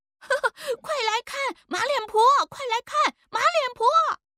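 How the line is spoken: Children chanting mockingly. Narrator (Chinese): 几个不懂事的奴仔也跟着喊

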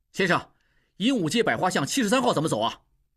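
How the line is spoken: Loud question. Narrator (Chinese): 大声问

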